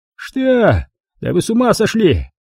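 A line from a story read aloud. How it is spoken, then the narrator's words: Mobster shouting. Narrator (Russian): закричал мафиози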